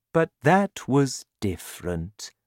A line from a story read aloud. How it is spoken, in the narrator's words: said the BFG, smiling kindly